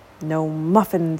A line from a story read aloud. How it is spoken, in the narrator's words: he grumbled